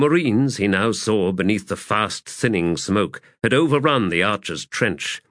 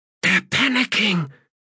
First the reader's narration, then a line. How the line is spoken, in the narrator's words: hissed Stalock